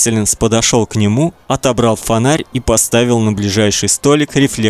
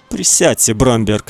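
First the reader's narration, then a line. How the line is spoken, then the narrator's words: Plain. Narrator (Russian): сказал он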